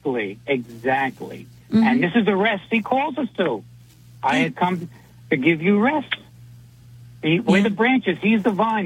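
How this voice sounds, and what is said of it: New York accent. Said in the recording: “I love that New York accent”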